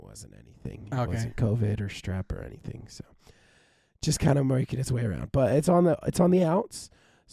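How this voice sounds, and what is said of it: Hoarse, raspy sick voice. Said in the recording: “sorry for the listeners for having to deal with my jazz voice for the night”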